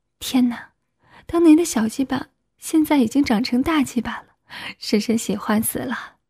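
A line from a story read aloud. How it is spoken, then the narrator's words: Exclaiming in amazement. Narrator (Chinese): 惊叹道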